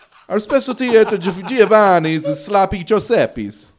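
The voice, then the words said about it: Heavy put-on Italian accent. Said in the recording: “with the heavy Italian accent. ... straight off the boat ... Do I sound like I'm right off the boat? ... Oh my God, dude, so much.”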